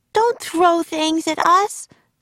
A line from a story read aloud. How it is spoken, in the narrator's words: shouted Annie